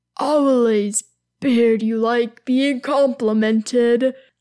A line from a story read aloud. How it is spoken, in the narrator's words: Durin observes with another one of his chuckles